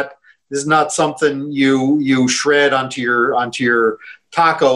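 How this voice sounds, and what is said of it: Usual voice. Nothing is said of it.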